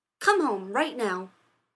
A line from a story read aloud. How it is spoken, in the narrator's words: Rodney snapped